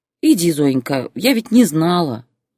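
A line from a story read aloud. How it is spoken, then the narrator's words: Old woman's sigh. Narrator (Russian): вздохнула бабулька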